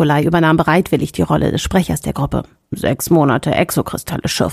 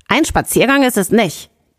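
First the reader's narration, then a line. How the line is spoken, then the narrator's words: Rough barking. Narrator (German): Jakov bellte roh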